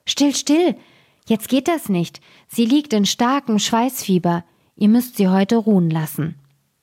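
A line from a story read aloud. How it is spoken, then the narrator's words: Old woman calling out. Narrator (German): rief die Alte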